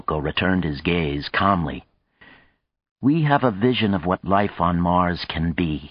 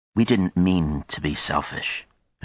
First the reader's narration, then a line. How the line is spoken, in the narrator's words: Hiroko said slowly